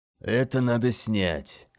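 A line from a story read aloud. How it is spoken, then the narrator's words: Muttering through nose plugs. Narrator (Russian): пробормотал бучер, поправляя затычки в ноздрях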